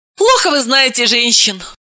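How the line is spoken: Snapped retort. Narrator (Russian): огрызнулась Далила

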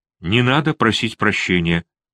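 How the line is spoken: Almost calm. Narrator (Russian): почти спокойно сказала

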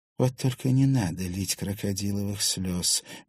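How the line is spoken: Flat, lifeless voice. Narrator (Russian): мертвым голосом произнесла Поликутина

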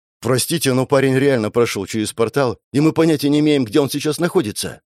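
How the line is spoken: Frightened interjection. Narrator (Russian): вмешался ассистент профессора, испуганно

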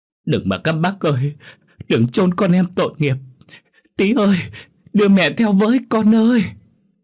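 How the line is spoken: Loud wailing, sobbing. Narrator (Vietnamese): gào khóc lớn hơn

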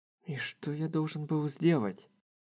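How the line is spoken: Muttering under breath. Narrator (Russian): Пробормотал Харухира себе под нос

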